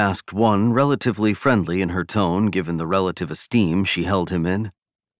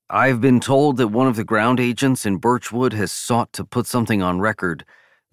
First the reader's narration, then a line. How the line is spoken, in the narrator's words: the aide said